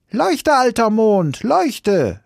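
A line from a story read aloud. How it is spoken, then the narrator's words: Shouted. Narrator (German): schrie Häwelmann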